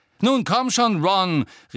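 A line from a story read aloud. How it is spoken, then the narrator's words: Gruff shout. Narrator (German): rief ihm Angelina in barschem Ton hinterher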